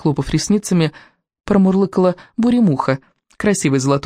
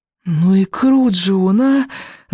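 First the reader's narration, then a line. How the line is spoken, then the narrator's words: Breathy exhale. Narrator (Russian): выдохнула Камикадзе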